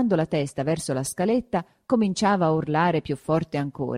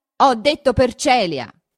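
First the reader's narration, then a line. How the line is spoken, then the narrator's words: Shouting in someone's face. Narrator (Italian): gridò questo sul viso di Renzo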